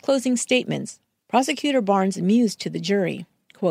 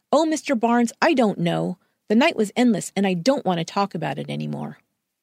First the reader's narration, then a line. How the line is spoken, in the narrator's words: Louise snapped